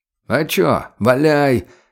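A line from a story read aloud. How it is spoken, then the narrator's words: Lazy reply. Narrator (Russian): лениво отозвался чекист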